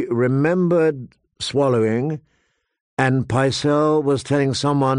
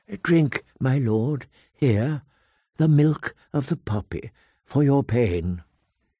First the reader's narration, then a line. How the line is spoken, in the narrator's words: Grand Maester Pycelle whispering